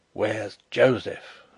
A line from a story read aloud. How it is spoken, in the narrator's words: muttered Sapt